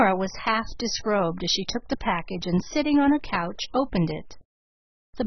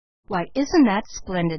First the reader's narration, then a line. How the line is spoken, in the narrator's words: laughed